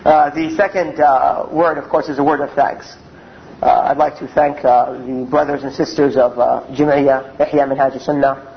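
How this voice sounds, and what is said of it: American accent, hoarse cold-affected voice. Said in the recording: “my throat has some sort of cold in it, so my voice might not be distinct as normally it is ... my American accent”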